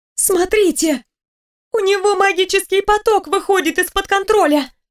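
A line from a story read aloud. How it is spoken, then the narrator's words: Urgent exclamation. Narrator (Russian): воскликнула одна из стихийниц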